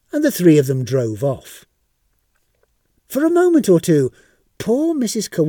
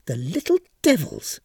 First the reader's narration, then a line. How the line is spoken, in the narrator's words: she muttered to herself